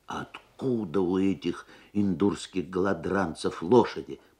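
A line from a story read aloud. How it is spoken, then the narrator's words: Muttering. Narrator (Russian): пробормотал дядя Сандро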